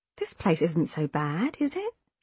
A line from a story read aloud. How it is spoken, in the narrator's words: I asked gently